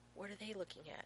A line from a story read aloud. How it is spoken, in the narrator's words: He whispers to Rodney